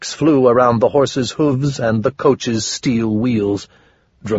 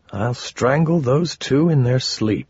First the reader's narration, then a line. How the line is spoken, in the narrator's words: I murmured